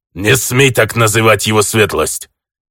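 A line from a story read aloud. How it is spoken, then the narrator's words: Growled. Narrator (Russian): зарычал чеченский чародей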